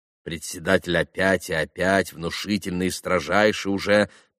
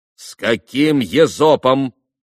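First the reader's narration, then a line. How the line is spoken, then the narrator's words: Stern. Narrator (Russian): строго поднял опять председатель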